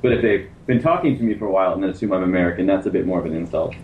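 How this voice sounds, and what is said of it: Canadian English accent. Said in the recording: “The Canadian accent is to American what the New Zealand is to the Australian”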